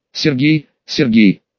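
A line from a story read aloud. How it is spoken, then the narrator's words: Weary drawl. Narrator (Russian): устало протянул мясник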